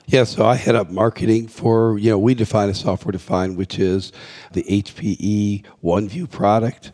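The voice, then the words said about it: Scratchy voice. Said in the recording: “I've got a little cold here, so my voice is scratchy.”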